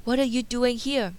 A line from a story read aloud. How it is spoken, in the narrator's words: Belle gasped